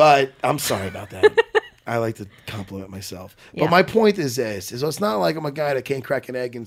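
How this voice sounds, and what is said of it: Usual voice. Nothing is said of it.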